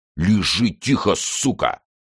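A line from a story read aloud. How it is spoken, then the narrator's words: Hissing voice. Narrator (Russian): прошипел голос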